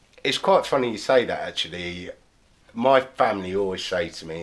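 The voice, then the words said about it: Southern English accent. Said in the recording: “I am from down south, as you could probably tell from my accent. ... I'm not a Cockney.”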